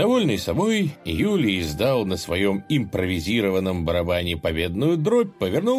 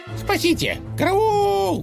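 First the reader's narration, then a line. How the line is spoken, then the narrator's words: Panicked yelling. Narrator (Russian): заорал конь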